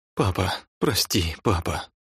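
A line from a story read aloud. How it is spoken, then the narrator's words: Moaning and sobbing. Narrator (Russian): Он стонал и всхлипывал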